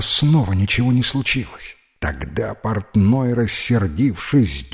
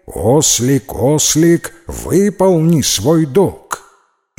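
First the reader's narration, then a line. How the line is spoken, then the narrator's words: Loud repetition. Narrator (Russian): Жан, думая, что ослик не расслышал, громко повторил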